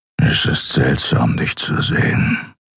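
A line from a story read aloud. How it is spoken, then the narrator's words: Grumbling. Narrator (German): brummte er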